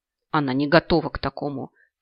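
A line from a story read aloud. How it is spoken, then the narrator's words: Angry voice from overhead. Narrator (Russian): Как-то зло прозвучало над самой моей головой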